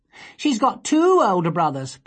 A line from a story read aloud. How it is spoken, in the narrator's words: piped up Dawn